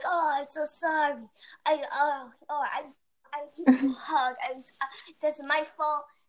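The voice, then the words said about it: Thick Asian accent. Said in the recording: “in his, like, little thick Asian accent.”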